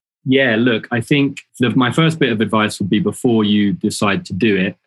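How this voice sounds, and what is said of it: English accent. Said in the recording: “having an English accent in New York”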